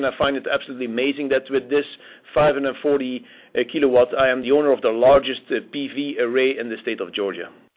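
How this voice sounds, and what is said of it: Belgian accent in English. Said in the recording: “you're speaking with an accent. ... you're actually from Belgium originally”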